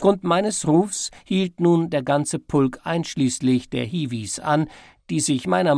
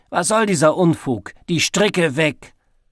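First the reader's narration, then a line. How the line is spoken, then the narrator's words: Loud roar. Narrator (German): laut gebrüllt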